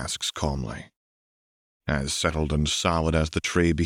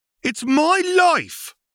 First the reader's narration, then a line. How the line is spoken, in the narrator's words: a youngling shrieks